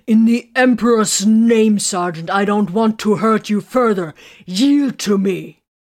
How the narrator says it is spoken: Titus roared, he added in annoyance

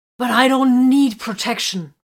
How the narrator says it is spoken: Vox snarled

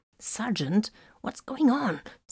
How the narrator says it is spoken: Solomon hissed over the comm

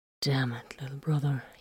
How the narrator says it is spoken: he murmured

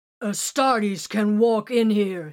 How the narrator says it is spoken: he roared

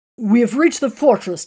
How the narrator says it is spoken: Tiberius informed them rather excitedly

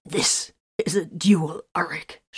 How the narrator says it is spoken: spat

